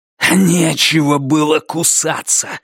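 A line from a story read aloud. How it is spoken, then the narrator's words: Hiss. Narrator (Russian): шипел Грег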